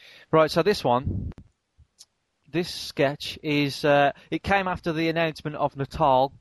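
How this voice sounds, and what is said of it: Usual voice. Nothing is said of it.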